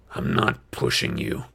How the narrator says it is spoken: another guy growled

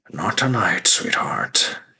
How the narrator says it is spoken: he sighed

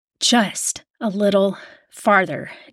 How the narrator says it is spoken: Jamie panted

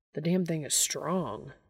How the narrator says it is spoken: Dean mutters

